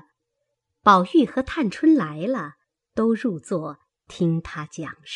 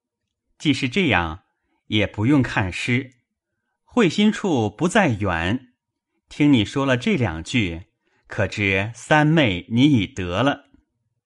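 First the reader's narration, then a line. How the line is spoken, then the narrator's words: Laughing. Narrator (Chinese): 宝玉笑道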